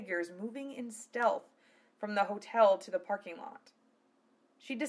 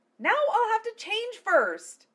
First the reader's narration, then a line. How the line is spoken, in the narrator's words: she screamed